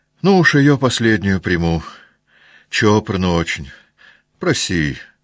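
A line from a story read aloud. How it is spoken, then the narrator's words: Sad voice. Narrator (Russian): сказала она лакею грустным голосом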